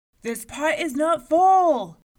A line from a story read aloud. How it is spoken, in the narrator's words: bellowed the giant